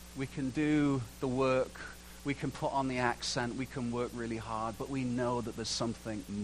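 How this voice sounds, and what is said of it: Usual voice. Nothing is said of it.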